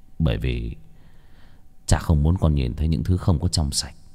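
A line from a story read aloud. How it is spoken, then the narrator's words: Father sighing. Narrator (Vietnamese): Cha tôi ông thở dài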